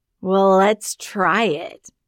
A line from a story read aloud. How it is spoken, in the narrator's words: slurred Banna